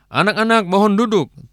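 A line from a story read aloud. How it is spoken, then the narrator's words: Teacher shouting. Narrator (Indonesian): guru berteriak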